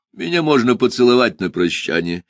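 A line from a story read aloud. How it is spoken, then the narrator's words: Cheerful. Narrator (Russian): весело сказал я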